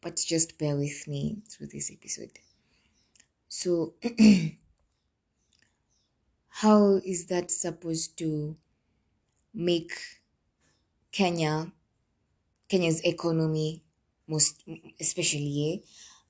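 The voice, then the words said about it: Rough just-woke-up voice. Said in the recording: “I'm so sorry, guys, about my voice. It's literally 9 a.m. Just woke up and my voice is kind of, you know.”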